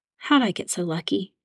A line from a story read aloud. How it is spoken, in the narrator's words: She whispered